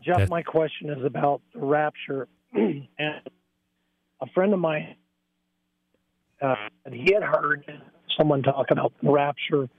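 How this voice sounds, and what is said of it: Raspy, hoarse voice. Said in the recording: “I have a raspy voice today. I'm a little hoarse.”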